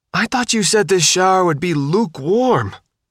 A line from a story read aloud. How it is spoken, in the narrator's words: Faith yelled